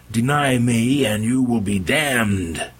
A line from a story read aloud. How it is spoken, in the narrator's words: He roared